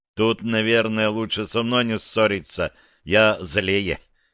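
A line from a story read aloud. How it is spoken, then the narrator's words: Involuntary chuckle. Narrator (Russian): невольно хохотнул я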